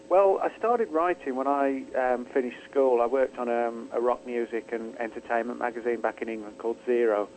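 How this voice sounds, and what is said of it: Non-local accent. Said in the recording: “you're not from around these parts ... It's not a local accent.”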